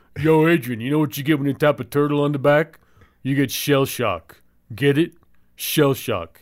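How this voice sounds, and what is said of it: Imitates a movie character's voice. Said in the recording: “I don't even do a good imitation. ... I think it's pretty good.”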